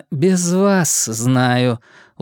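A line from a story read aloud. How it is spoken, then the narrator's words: Tired, cutting off. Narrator (Russian): устало оборвала его Кавахара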